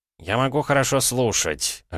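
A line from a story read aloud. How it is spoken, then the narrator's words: Snapping retort. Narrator (Russian): огрызнулся Северюгин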